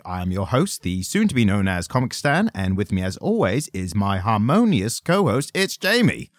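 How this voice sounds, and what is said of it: Running out of breath. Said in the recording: “You tell I was running out of breath there for a second? ... Yeah, I could, yeah.”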